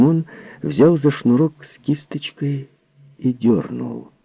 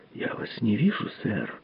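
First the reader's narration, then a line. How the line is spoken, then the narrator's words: Whispered. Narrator (Russian): прошептал он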